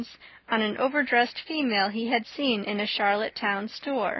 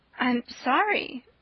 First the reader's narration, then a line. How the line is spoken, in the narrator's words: faltered Anne